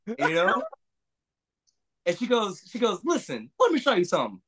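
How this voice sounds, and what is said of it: Imitates another person's voice. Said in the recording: “my dying impression ... I'm trying to show Reba McEntire ... I do not sound like Reba McEntire”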